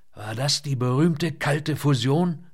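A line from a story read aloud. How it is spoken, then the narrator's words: Croaking. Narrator (German): krächzte er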